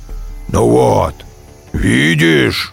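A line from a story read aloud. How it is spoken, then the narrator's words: Tiger's growl. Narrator (Russian): зарычал тигр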